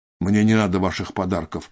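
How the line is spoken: Weary reply. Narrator (Russian): устало ответил Виктор

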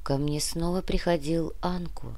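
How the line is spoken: Quiet speech. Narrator (Russian): тихо сказала Олеся

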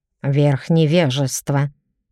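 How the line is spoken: Muttered through clenched teeth. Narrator (Russian): цедил сквозь зубы щуплый чародей

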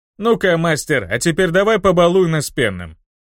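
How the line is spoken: Baron's commanding request. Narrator (Russian): Приказным тоном попросил барон

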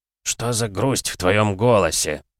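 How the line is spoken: Hoarse rasp, then coughing. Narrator (Russian): Прохрипел Содзёбо и откашлялся

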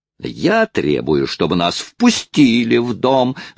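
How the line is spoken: Authoritative declaration. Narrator (Russian): заявил Хайрам самым авторитетным тоном, на какой только был способен

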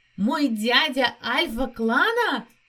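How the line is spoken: Delighted yell. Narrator (Russian): восхищенно завопил Илья

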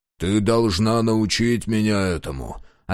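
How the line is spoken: Sad sigh. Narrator (Russian): огорченно вздохнул Мюррей

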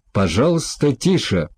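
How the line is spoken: Shouted. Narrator (Russian): Он крикнул

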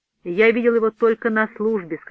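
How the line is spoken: Dry. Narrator (Russian): сказал Кольберг сухо

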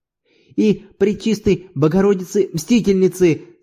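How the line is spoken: Stuttering distant shout. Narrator (Russian): заикаясь, прокричал настоятель из-за скалы

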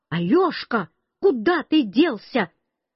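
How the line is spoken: Grandmother calling from behind. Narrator (Russian): Бабушка совсем сзади меня кричала

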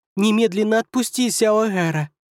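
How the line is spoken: Tiny shrill squeak. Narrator (Russian): Тоненьким, как у мыши, пронзительным голоском пропищала цветочная фея

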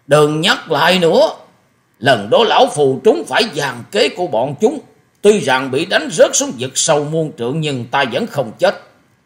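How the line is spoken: Interrupting shout. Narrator (Vietnamese): Thất độc thần kiếm dục hét lên một tiếng ngắt lời của Hoa Sĩ Kiệt

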